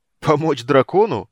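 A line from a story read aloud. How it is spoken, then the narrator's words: Uncontrollable guffaw. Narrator (Russian): не сдержавшись, захохотал Карамон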